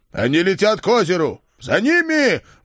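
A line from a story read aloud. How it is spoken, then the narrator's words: Roaring shout. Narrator (Russian): взревел я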